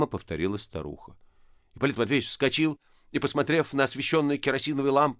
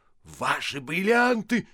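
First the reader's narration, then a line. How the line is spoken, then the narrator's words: Startled loud shout. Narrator (Russian): закричал он, пугаясь силы своего голоса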